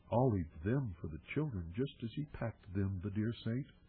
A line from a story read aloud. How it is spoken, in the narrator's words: she murmured to herself